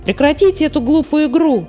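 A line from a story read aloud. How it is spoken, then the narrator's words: Shouted. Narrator (Russian): крикнул Муми-тролль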